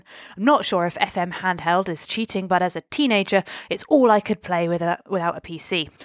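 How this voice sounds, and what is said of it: Put-on Australian accent. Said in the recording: “I will stop myself from doing an Australian accent. ... You're never going to be able to stop yourself. ... I really won't.”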